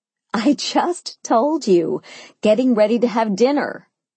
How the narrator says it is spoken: I laughed

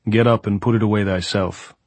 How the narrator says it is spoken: Pablo said

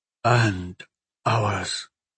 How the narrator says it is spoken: Muazza added in a near whisper

